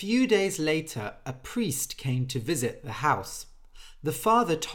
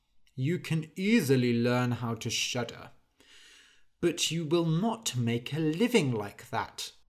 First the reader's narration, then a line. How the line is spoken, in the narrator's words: The father sighed and said